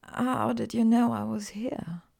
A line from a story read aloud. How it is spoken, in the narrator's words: she asked, her voice hoarse